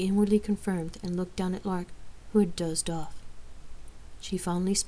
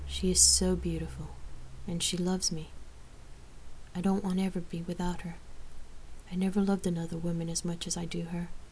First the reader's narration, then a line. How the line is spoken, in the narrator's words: Rain adoringly proclaimed